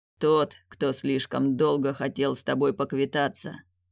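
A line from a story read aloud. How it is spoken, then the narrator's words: Growling. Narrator (Russian): прорычал Теодрик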